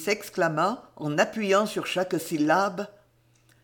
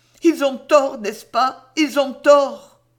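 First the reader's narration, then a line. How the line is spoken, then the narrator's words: Violent outcry. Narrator (French): il s'écria violemment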